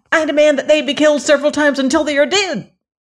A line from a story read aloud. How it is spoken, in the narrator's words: shouted a pepper box, hopping around very excitedly